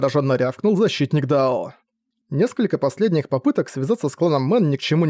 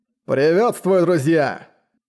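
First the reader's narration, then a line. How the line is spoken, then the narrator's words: Loud, confident call. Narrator (Russian): Громко и уверенно окликнул их защитник Дао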